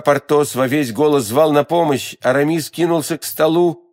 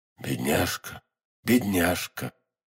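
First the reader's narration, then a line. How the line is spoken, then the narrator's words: Hoarse whisper. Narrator (Russian): хриплым голосом шептал Атос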